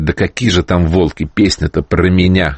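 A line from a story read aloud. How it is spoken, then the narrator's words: Plain. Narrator (Russian): говорит этот человек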